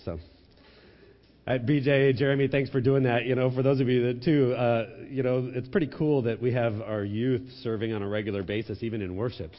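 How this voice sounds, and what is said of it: Sick, weird-sounding voice. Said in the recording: “I'm sick this morning. My voice doesn't normally sound like this. Does it sound weird out there? ... this like cross between Ray Romano and something else”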